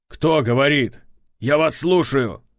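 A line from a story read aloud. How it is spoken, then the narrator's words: Shouting. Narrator (Russian): закричал Валдаев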